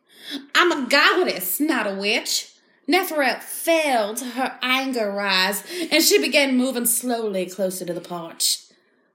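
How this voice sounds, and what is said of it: Put-on accent, Australian drifting to Southern. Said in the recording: “I don't know what kind of accent that was, but I feel like it was all right ... I think you started with Australian, and then you went into Southern.”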